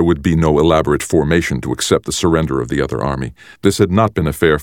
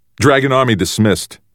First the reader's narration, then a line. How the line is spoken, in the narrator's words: he shouted immediately